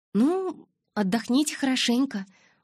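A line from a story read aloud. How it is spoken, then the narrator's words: Cheerful. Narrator (Russian): бодро пожелала я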